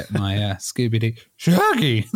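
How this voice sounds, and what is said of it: Cartoon dog Scooby-Doo voice impression. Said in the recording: “Scooby-Doo impression”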